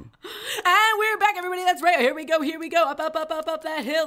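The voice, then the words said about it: Rapid auctioneer-style patter. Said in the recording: “in my auctioneer voice”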